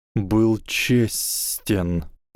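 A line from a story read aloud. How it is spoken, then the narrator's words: Hissed reply. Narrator (Russian): прошипел в ответ Гарри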